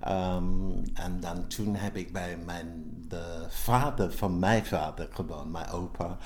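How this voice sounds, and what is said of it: Strong English accent in Dutch. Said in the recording (Dutch): “je hebt een heel licht accent ... dat was een understatement ... Newcastle”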